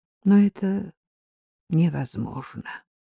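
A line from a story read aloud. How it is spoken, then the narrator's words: Sad addition. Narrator (Russian): И грустно добавила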